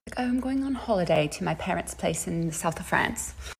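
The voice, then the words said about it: Poor put-on British accent. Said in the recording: “my British accent is horrible”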